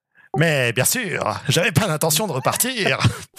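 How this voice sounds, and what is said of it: Weird-accented alien ship voice. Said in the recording (French): “Cette entité a la voix d'Ika ... la voix du vaisseau, elle a un accent bizarre ... c'est la réincarnation obscure de Watto”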